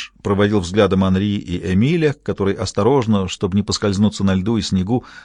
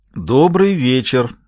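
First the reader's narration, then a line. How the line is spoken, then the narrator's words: Loud, booming in church. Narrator (Russian): громко произнес Гамаш, слыша собственный голос, который прогремел по церкви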